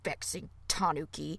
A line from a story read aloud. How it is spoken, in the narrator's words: grumbled